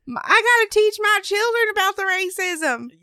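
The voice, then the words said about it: Put-on Southern US accent. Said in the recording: “Did I give them an Alabama accent? A southern accent,”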